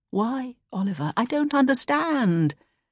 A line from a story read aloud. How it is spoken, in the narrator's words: she couldn't prevent her voice trembling as she asked